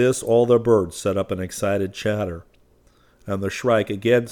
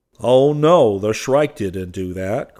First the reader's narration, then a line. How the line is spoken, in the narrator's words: cried Will Sparrow